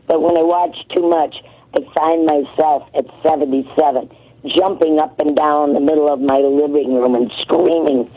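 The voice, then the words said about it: Hoarse, strained older woman's voice. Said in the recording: “I'm losing my voice.”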